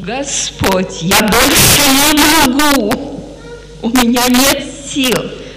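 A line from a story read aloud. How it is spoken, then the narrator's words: Shout. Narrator (Russian): Я тоже так кричала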